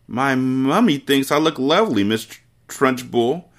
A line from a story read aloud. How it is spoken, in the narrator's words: Amanda stuttered, shaking like a blanche-mange